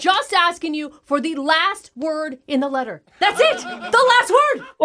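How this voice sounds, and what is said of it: Yelling angrily. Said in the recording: “why are you yelling”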